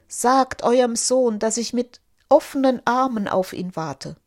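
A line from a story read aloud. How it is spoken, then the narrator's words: Overwhelmed ruler exclaiming. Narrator (German): Überwältigt vom Reichtum, der sich ihm bot, rief der Sultan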